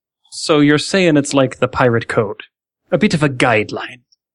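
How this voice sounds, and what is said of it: Pirate character voice. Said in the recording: “my pirate impersonation”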